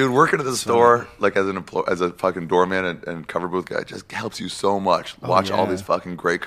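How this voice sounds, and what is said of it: Usual voice. Nothing is said of it.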